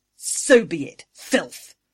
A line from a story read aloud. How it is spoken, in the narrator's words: Angry snarled